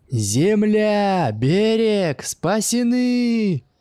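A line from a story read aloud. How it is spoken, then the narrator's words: Joyful group shouting. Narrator (Russian): Радостно закричали все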